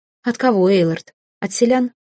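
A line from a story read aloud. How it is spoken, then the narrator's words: Calm, smiling. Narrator (Russian): спокойно улыбнулась я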